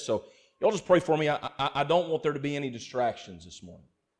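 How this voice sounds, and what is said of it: Congested, strained, failing voice. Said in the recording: “I felt some just drainage and allergies up here, sinus stuff, and it's giving me a little trouble ... me losing my voice”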